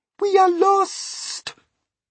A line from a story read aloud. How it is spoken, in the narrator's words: Miss Spider cried